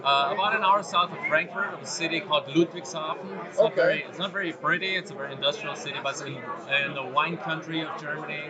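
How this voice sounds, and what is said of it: German accent. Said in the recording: “you sound very German to me”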